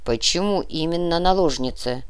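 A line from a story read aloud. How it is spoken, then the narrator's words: Grumbling mutter. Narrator (Russian): пробурчал барон Святополк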